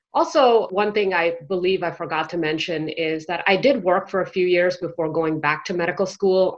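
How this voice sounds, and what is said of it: American accent. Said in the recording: “as you can tell by my accent, I am basically brought up in the US”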